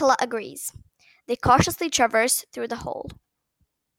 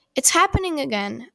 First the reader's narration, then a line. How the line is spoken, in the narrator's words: Aina exclaims